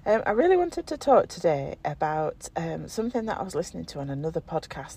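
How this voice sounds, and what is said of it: Hoarse, croaky voice. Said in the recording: “losing my voice, ... croaking”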